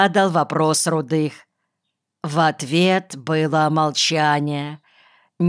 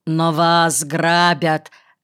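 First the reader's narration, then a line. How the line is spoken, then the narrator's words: Loud declaration. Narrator (Russian): громко заявил Рудых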